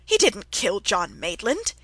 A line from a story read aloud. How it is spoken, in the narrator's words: he cried angrily